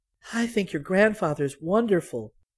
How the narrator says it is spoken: Celia said softly

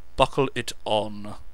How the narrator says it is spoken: said Lance testily

